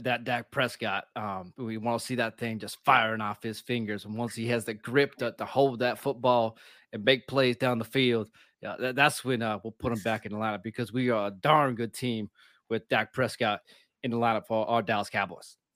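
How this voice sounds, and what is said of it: Imitates another person's voice. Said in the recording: “Can you give me like your best Jerry Jones post-game reaction ... I don't do a good Jerry Jones impression, but I'll do my best.”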